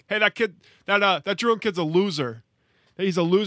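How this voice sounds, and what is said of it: Imitates another person's voice, New York accent. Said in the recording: “I still don't know how to do a good Trump. ... He's a New York accent.”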